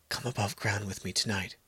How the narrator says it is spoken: I whispered to her during a burst of laughter

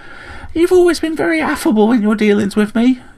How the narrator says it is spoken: chirped Returbick

